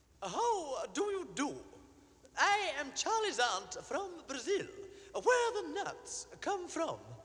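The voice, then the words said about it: Male voice singing in falsetto. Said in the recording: “in falsetto, utters the play's celebrated self-introduction”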